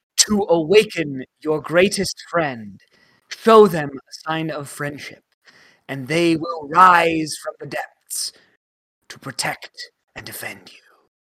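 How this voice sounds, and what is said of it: Reading slipping into a put-on accent. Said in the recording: “he wasn't going to do an accent, and then by the end, he was, like, totally doing one.”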